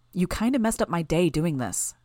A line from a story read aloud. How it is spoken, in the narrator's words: quickly added